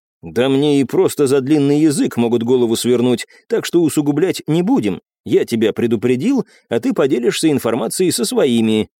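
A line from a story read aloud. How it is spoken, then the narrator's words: Plain. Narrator (Russian): ответил Артем Владимирович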